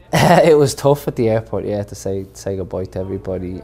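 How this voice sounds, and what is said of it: Irish accent. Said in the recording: “Irish people ... my accent ... from Kildare”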